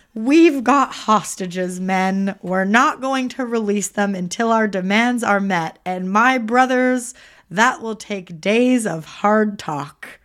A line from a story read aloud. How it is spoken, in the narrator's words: a fucking cult leader shouting